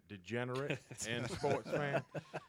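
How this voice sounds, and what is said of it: Put-on fake accent. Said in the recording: “my fake accent”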